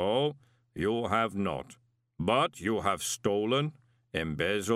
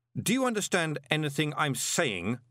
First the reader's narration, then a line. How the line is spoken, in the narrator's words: shouted Moist